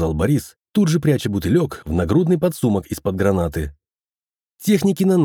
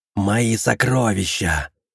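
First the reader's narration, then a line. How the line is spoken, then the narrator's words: Furious growl. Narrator (Russian): прорычала Вхагар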